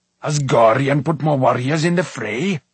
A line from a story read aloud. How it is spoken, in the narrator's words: roared Smite, his face crimson